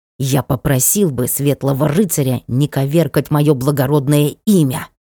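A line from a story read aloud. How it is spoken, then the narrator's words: Hissing raccoon. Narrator (Russian): прошипел енот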